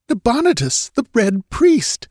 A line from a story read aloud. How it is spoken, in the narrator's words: exclaimed Murillo, his brain a dizzy vortex of whirling amazement